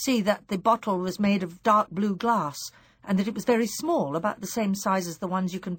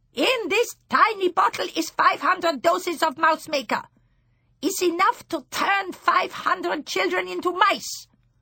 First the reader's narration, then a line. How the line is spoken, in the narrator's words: She shouted